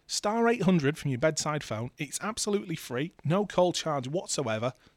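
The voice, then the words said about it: Strained, failing voice. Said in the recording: “Oh, my voice is going.”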